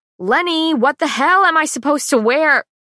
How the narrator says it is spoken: I do, in fact, holler

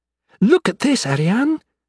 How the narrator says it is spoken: said excitedly

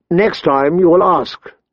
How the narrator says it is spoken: she said, her voice sharp

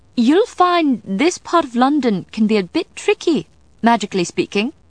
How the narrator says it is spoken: she called out, in that authoritative, cheerful tone that only British women of a certain age and social status could produce

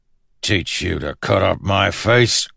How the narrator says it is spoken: growled one

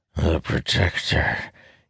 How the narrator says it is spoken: wheezes

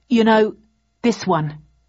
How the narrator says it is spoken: I said firmly

